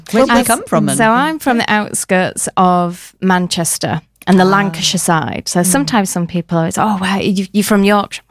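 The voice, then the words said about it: Northern English accent. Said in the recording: “I am northern ... We've got a bit of a northern accent going on here”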